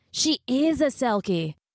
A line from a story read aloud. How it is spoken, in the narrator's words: Connor cried